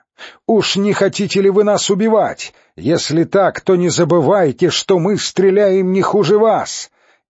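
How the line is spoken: Shouted reply. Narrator (Russian): В ответ кричала деревенщина

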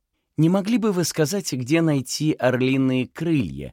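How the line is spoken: Cheerful inquiry. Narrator (Russian): весело осведомилась Мэй

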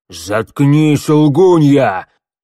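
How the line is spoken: Roaring. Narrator (Russian): Взревел Кляус

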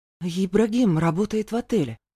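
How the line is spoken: Timid prompting. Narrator (Russian): вмешавшись робко, подсказала мама

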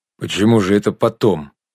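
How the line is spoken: Sudden sharp question. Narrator (Russian): вдруг резко спросил Бореев

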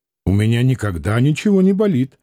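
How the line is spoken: Indignant, close to tears. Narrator (Russian): возмущенно сказал Клим, боясь, что сейчас заплачет

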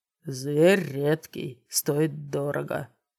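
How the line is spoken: Gloomy reply. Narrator (Russian): мрачно ответил Брэдли

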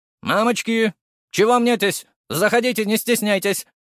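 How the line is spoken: Stout woman barking. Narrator (Russian): рявкнула дородная женщина

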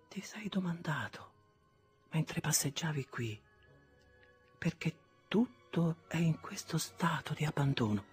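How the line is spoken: Soft, holding back tears. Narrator (Italian): Non sapendo che le vedevo e facendo uno sforzo per frenarle, ella disse piano

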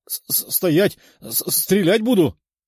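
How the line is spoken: Trembling shout. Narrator (Russian): дрожащим голосом прокричал римлянин

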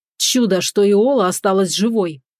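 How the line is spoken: Furious growl. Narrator (Russian): прорычал в ярости он

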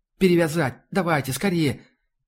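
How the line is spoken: Babbling. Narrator (Russian): Еще что-то лепетала

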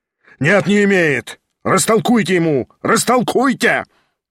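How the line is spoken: Shouting. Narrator (Russian): кричал Гаганов

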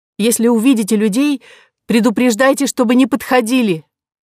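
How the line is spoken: Pained strained voice. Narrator (Russian): Кора чуть не закричала, так онемела нога, и сказала

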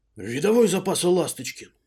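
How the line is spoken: Half-voiced bark. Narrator (Russian): Пришлось мне в полголоса рявкнуть на него

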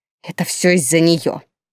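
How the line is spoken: Grumbling. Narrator (Russian): Снова проворчала Тильда

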